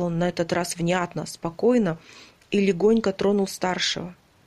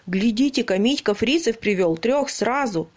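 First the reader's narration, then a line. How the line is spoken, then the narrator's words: Exclaimed. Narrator (Russian): воскликнул наводчик Митиной пушки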